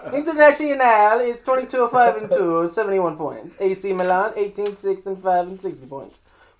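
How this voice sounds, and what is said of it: Put-on Italian accent. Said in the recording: “really try and get that accent going ... I lost my Italian accent out of nowhere ... I went ahead and just went way off my Italian accent”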